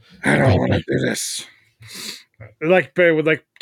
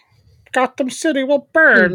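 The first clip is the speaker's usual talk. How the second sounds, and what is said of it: Muffled, hard-to-understand villain voice. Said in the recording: “Tom Hardy's Bane voice in the original cut of the movie when you could barely understand what he said”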